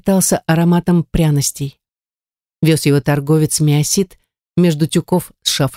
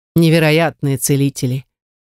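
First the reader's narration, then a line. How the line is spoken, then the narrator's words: Plain. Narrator (Russian): напоследок сказал Миосит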